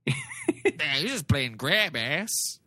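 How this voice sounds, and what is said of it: Imitates another person's voice. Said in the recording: “That's my Paul Verhoeven voice. ... It's a good impression. ... It's dead on.”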